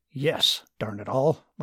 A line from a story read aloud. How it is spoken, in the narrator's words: Martin grumbled